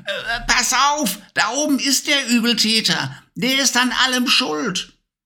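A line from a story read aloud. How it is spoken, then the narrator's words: Calling out. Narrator (German): rief sie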